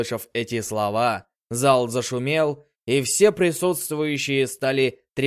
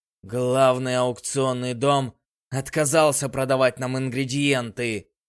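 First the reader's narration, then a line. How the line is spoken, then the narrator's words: Gloomy. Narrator (Russian): мрачно произнес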